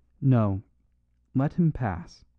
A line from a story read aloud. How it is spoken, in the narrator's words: said Father Brown, with a strange, deep sigh that seemed to come from the depths of the universe